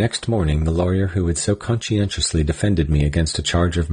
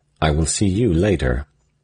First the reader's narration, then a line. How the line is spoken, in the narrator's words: he said, coldly but significantly